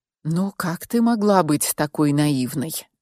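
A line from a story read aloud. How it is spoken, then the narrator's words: Resigned sigh. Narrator (Russian): обреченно вздохнул Мик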